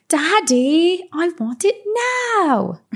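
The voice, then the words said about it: Poor imitation of a spoiled child. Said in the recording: “That was a bad impression”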